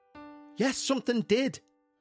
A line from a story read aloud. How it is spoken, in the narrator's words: exclaimed